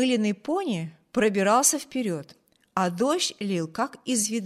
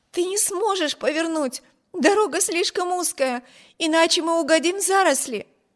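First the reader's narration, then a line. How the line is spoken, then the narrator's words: Alarmed exclamation. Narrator (Russian): воскликнула Эми, уверенная, что при этой попытке карета непременно опрокинется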